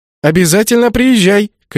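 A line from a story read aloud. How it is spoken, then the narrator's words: Shouting. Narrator (Russian): крикнула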